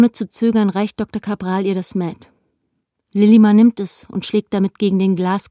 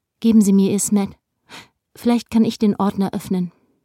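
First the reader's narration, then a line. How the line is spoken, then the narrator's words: Woman speaking perfectly calmly. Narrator (German): Wie um sich die eigene Tollkühnheit zu beweisen, sagt sie vollkommen ruhig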